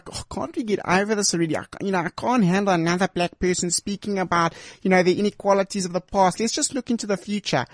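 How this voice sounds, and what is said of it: Put-on accent. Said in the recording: “I'm sorry I'm using that accent. I don't know where that comes from.”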